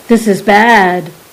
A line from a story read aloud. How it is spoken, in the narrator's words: Cupsador exclaimed severely